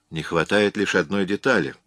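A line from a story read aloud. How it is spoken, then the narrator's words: Calm objection. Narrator (Russian): спокойно возразил Эллиот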